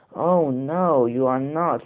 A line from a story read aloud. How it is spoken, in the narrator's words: roared the troll